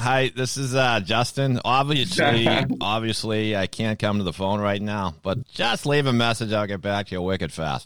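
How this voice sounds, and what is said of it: Exaggerated Boston accent. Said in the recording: “you don't have a Boston accent ... I had a really strong Boston accent ... I tend to usually keep mine on a leash”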